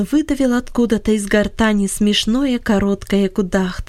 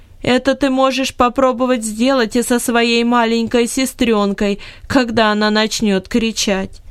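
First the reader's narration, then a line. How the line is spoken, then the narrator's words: Laughing female voice. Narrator (Russian): громко рассмеялась и сказала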